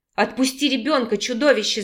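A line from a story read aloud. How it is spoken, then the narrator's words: Growling. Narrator (Russian): зарычала Виктория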